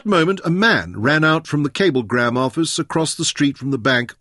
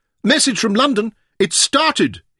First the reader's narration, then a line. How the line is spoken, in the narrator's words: yelled